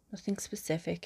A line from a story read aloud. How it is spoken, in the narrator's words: he says